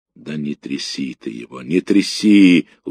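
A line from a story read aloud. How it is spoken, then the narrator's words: Weary speech. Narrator (Russian): устало сказал ефрейтор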